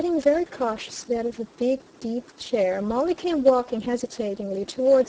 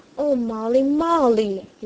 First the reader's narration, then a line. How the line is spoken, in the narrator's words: he cried out beseechingly